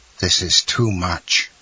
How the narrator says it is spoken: murmured Villefort

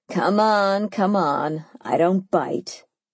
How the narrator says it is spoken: he scoffed

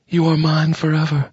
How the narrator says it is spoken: his was purring

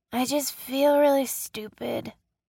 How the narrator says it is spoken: Ryan slurred

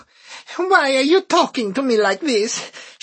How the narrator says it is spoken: She whined

